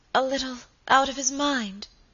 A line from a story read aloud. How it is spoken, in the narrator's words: faltered Lady Audley